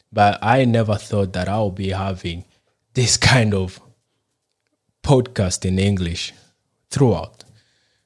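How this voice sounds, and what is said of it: Non-native English accent. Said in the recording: “You realize that by my accent and even the way I normally speak, that English is not my first language.”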